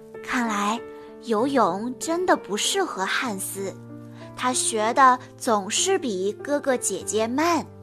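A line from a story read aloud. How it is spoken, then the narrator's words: Teacher whispering. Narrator (Chinese): 山姆老师……悄声说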